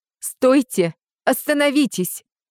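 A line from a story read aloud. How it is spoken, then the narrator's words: Shouted on bursting in. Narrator (Russian): закричала ворвавшаяся в зал Софи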